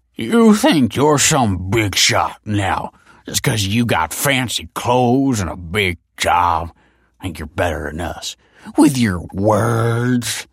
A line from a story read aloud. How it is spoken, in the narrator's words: slurred Tony